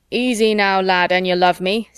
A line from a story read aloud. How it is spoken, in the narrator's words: Sid thundered